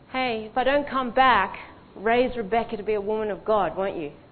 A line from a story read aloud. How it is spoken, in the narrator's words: Keith kind of called out to Melody and said